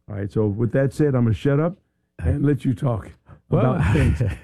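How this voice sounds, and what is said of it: Raspy, fading voice. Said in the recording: “I'm raspy. I want to be full raspy ... lose my voice”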